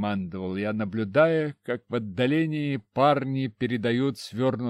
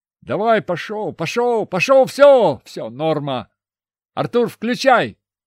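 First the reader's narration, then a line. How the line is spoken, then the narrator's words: Shout. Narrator (Russian): крикнули мне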